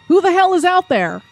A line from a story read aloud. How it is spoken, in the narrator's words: Max shouted, sounding somehow like his knees weren't suddenly jello